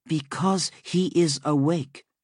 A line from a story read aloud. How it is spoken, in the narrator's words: Melusine said